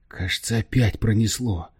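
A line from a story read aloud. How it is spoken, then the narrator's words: Muttered. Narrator (Russian): пробормотал он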